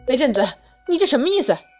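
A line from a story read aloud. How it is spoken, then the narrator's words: Humiliated angry scream. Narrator (Chinese): 惨叫一声，恼羞成怒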